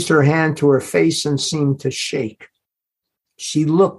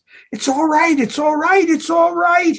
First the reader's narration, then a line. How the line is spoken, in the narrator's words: he shouted